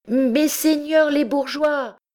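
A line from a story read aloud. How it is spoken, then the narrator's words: Shouting at full volume. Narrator (French): cria-t-il de toute la force de ses poumons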